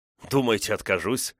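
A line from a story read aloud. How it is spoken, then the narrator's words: Snorting laugh. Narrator (Russian): фыркнул я со смехом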